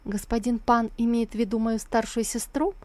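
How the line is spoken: Innocent-toned question. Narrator (Russian): Сусу спрятала улыбку и невинным тоном спросила

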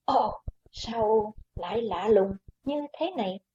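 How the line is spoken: Frightened soft cry. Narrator (Vietnamese): Quái Hòa Thượng kinh hãi kêu khẽ

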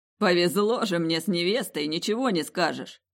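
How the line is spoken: Between fits of laughter. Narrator (Russian): В перерывах между приступами безудержного хохота приговаривал он

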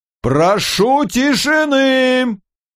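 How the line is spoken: Booming. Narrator (Russian): прогудел Синглтон

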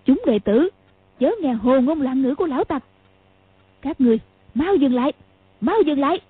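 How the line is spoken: Loud shout. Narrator (Vietnamese): Mụ quát to

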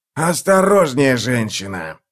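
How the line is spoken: Growl. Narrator (Russian): зарычал

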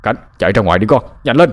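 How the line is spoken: Old person's alarmed yell. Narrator (Vietnamese): Dường như phát hiện ra có sự lạ, cụ Huyên gào lên

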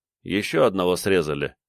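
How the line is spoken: Calm, matter-of-fact. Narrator (Russian): спокойно сказал тот, как про нечто обыденное

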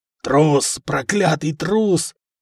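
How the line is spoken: Count's hoarse rasp. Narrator (Russian): хрипел граф

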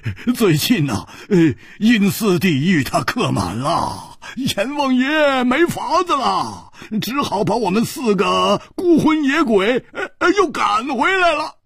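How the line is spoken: Loud laughter. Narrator (Chinese): 胡铁花大笑

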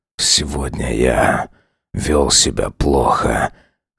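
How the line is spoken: Hoarse voice. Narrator (Russian): хрипло проговорил он

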